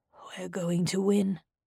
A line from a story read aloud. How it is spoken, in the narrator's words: Ermelon said softly